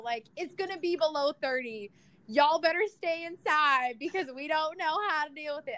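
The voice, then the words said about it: Put-on regional accent. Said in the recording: “I should stay away from that accent forever. I apologize.”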